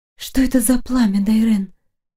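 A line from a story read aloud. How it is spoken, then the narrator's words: Hoarse, alluring voice. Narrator (Russian): Хриплый голос, от которого сносит крышу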